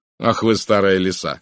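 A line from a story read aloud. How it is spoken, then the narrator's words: Laughing. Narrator (Russian): рассмеялся я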